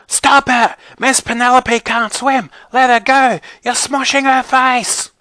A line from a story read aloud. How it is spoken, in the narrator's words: Brianna started screaming